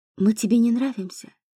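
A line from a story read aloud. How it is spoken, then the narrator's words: Quiet question, fox. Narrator (Russian): тихо спросила лиса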